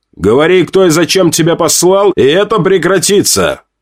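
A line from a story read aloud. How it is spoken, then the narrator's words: Loud. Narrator (Russian): громко сказал я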